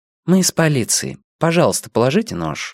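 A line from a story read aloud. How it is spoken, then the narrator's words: Calm. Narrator (Russian): спокойно сказала Сага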